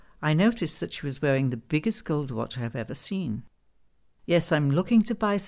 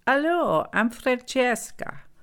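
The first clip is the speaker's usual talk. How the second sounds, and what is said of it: Thick Italian accent. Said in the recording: “She says to me in a thick Italian accent”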